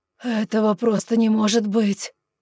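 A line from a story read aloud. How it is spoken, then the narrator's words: Desperate moan. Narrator (Russian): С отчаянием в голосе простонал он, отказываясь верить своим глазам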